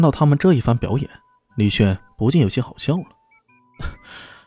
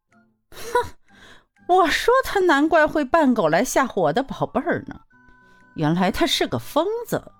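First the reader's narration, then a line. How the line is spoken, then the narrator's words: Cold sneer. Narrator (Chinese): 那怀登太太更是冷笑一声，说道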